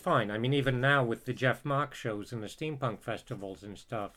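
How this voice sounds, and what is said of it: Affected British accent. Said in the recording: “my ersatz British accent”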